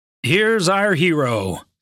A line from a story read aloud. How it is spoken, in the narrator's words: he announced